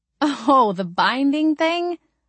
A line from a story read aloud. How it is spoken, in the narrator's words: I asked, laughing